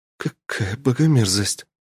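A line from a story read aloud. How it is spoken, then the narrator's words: Breathed out. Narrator (Russian): выдохнула Лиса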